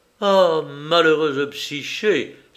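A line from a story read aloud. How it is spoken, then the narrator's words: Exclamation with long sigh. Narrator (French): s'écria-t-elle avec un soupir prolongé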